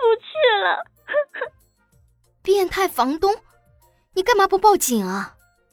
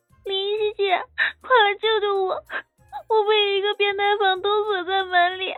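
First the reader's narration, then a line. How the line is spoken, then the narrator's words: Tearful, crying voice. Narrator (Chinese): 乔小萌带着哭腔说道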